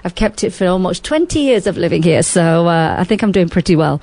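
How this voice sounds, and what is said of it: Speaks with a non-local accent. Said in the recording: “Don't be confused by my accent. I do live here. ... I've kept the accent.”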